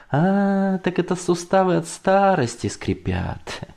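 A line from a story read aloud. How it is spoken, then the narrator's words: Chuckling. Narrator (Russian): хохотнул Лёва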